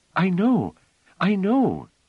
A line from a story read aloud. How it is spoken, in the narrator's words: said Phelim eagerly